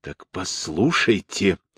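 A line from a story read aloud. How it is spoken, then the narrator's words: Hissed. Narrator (Russian): прошипел он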